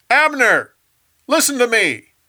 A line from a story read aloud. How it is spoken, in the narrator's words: David yelled at Saul's camp